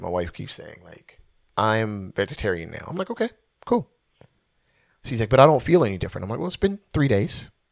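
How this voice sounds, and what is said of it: Lowered, hushed speaking voice. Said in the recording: “I noticed that you're lowering the tone of your voice too ... whisper”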